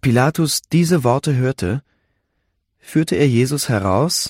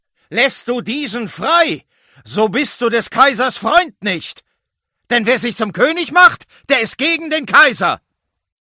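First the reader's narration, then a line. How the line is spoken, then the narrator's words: Crowd shouting. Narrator (German): Die Juden aber schrien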